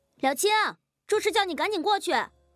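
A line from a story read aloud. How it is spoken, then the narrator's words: Shout from outside. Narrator (Chinese): 外面忽然传来了喊声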